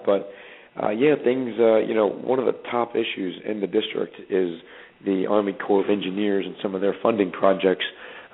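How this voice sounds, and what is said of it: Voice hoarse from a cold. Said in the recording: “excuse my voice. I'm a little bit under the weather. Got a little bit of a cold”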